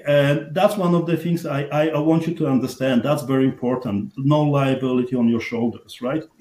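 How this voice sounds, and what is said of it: Strong accent. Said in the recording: “even with my struggles for the language, even with my strong accent”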